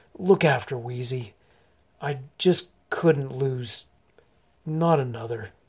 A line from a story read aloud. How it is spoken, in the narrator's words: Pickett said hoarsely